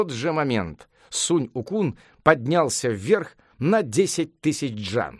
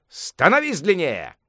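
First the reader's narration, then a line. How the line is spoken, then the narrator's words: Shout. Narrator (Russian): крикнул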